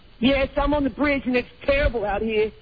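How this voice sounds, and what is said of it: Fake prank-caller voice. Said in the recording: “It's a fake voice. ... It's fake. ... Jerky boy's voice.”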